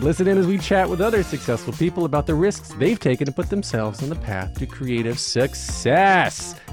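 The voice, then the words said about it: Projected radio announcer voice. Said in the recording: “It's just your radio voice. ... It's my supported voice. Like, with the musical theater training, ... when I start projecting, that's my diaphragm pushing up.”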